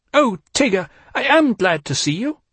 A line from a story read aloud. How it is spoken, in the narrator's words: cried Rabbit